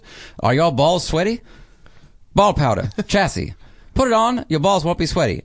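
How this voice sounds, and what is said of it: Fake 1940s Mid-Atlantic radio accent. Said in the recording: “Chassis Ball Patter in the Mid-Atlantic accent ... Mid-Atlantic is the 40s radio guy fake accent”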